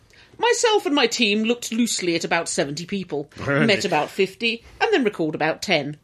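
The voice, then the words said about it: Reads aloud in a silly voice. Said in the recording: “The way that you put on a silly voice to read that.”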